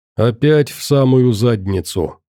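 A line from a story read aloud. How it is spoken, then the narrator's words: Grumbling. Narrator (Russian): проворчал купец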